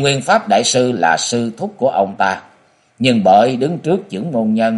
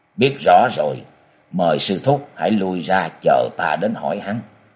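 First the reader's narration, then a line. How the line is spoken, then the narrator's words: Low voice with a snort. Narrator (Vietnamese): Quyền Nguyên đại sư trưởng môn nhân phái Nga Mi khẽ hạ thấp giọng hừ một tiếng nói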